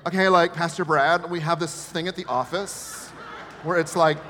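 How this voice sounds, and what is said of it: Valley girl voice. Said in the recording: “suddenly in my head, I'm a Valley girl”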